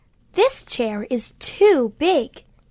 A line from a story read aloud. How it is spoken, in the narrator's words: she exclaimed